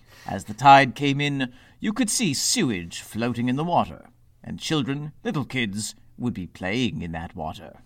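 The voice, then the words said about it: Exaggerated English accent, Bond-villain style. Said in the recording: “that accent, don't know what that was. That was not your ... accent... Was it too English?... It was like Bond villain English.”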